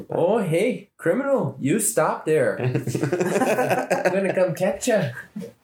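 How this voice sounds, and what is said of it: Imitated Midwestern security guard accent. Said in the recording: “pretty intense Midwestern accents ... the security officers there can have an accent”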